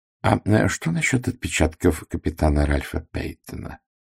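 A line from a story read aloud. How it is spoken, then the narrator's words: Quiet question. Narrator (Russian): негромко спросил Пуаро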